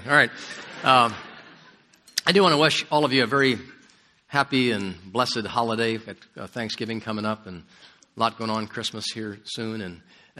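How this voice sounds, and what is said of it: Hoarse, higher than usual voice. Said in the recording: “you can tell I'm a little hoarse. This time of the year gets me every single year... my voice is normally much deeper than this.”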